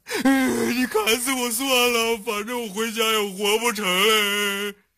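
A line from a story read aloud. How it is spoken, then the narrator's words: Fake crying. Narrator (Chinese): 杨过假意的哭了起来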